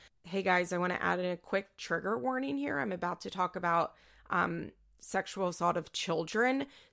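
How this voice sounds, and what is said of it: Raspy voice. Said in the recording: “my voice is very, very raspy this morning”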